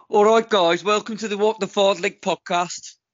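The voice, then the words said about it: Put-on Birmingham accent. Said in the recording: “Do Birmingham. ... See, he's good. He's good.”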